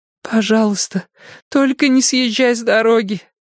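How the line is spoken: Moaning plea. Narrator (Russian): простонала Илза

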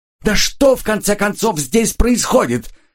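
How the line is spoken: Shouting again. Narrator (Russian): снова выкрикнула Сильвия

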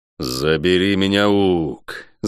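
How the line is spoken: Growling. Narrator (Russian): зарычал Гонор

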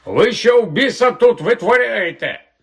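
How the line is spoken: Shout. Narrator (Ukrainian): вокзальний охоронець закричав

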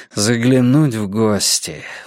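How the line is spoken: Sighed. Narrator (Russian): вздохнул Йона

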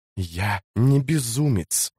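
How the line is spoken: Hissing into her ear. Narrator (Russian): прошипел он ей в уши

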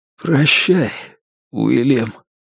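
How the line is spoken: Trembling voice. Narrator (Russian): дрожащим голосом сказал Белл

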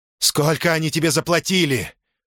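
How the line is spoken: Shout. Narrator (Russian): крикнул он Лилии

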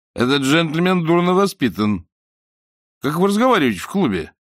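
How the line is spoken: Bewildered. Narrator (Russian): Ричмонд растерянно посмотрел на окружавших его людей и сказал

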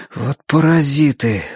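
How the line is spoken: Exhaled. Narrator (Russian): выдохнул Тенька

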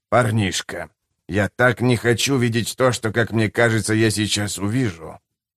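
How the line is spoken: Quiet. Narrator (Russian): говорит он тихо

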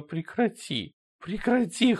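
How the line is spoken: Whimpering. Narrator (Russian): хныкала она

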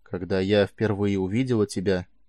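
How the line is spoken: Quiet. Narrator (Russian): тихо заговорила она

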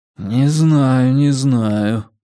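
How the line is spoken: Drawn out. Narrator (Russian): протянул Реттик

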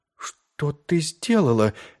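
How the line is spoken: Strained, forced out. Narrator (Russian): выдавила она из себя

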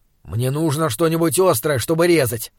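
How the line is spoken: Grumbling. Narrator (Russian): проворчал он

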